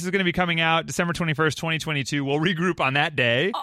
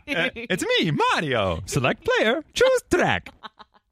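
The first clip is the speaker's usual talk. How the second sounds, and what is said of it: Impression of Mario's voice. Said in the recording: “your best impression”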